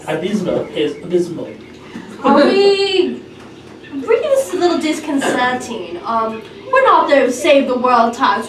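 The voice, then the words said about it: Put-on British accent. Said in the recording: “But in my British accent.”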